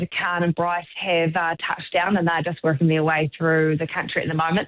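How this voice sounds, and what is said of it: Southland New Zealand accent. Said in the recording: “Love that Southland accent, by the way. You keep it up.”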